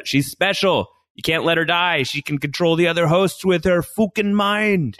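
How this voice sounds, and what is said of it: Imitated Sizemore character accent. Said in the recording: “Good accent.”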